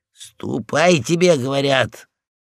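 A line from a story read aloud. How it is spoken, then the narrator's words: Growled. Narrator (Russian): И полкан зарычал опять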